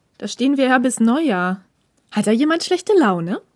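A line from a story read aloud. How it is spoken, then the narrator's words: Smirking, mocking. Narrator (German): feixte Ishida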